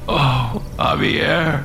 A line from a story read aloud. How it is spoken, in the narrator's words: Alex whimpered